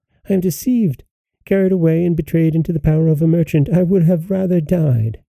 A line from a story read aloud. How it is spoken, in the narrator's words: she cried in terror